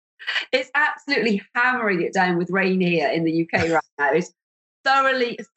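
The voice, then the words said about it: Croaky, hoarse voice. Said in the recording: “Excuse me for being a little bit croaky. I'm at the tail end of a really rotten cold, so I have my kind of my croaky, well, not very sexy voice.”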